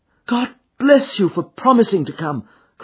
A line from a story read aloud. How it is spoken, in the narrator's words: cried